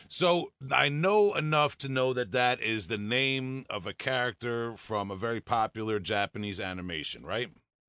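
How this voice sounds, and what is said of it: Long Island accent. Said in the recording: “it's my Long Island accent”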